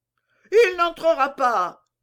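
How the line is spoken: Crowd shouting. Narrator (French): criait le populaire, qui était accouru en foule

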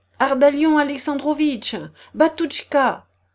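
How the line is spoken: Shouting. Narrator (French): lui cria-t-elle

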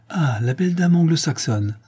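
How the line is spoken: Delighted exclamation. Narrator (French): s'exclama-t-il d'un ton ravi

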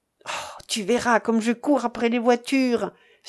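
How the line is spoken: Excited exclamation. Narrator (French): s'écria Bob

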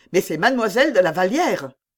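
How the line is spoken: Officer exclaiming. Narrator (French): s'écria l'officier

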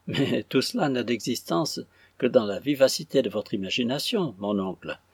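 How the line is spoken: Laughing girl's reply. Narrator (French): répliqua en riant la petite Dorit

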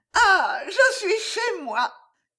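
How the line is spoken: Exclaiming. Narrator (French): s'écria Riquette

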